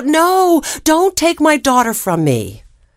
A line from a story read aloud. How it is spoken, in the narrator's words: The mother yelled out